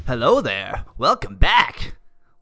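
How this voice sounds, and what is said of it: Impression of a cartoon professor's voice. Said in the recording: “Your impression of Professor Oak is getting better each episode.”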